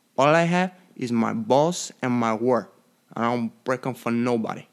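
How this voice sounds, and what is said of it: Movie gangster accent impression. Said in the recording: “accent alone ... my impression of Scarface”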